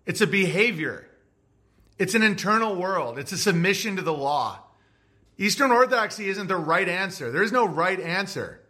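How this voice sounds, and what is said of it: Emotional yelling. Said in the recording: “Sorry, I'm emotional, so that's why I'm yelling.”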